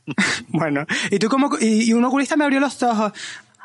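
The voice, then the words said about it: Put-on Canary Islands accent. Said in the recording (Spanish): “Cuéntalo en canario, como si fueras vale. Una canaria de Las Palmas.”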